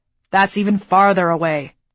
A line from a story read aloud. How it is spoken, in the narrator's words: the field marshal scoffed